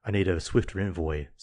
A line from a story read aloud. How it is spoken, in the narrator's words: said the father